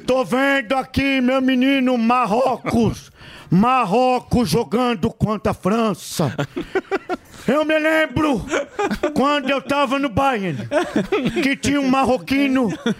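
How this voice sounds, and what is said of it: Imitates another person's voice. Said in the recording (Portuguese): “a imitação que foi bem na Olha Copa aí. Foi o Zé Roberto ... ele é meio coach ... ele parece o Tiririca falando”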